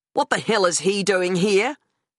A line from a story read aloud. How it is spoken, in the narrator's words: He said sharply